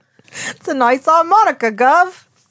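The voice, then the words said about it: Attempted Cockney British accent. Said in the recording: “a British person ... Like a Cockney kind of thing ... My British”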